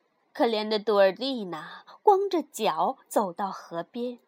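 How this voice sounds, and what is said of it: Usual voice. Nothing is said of it.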